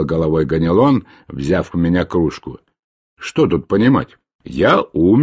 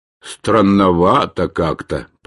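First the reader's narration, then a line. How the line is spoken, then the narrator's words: Grumbling. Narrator (Russian): пробурчал Ганелон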